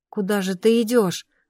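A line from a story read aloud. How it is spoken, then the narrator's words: Grumbling. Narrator (Russian): ворчала я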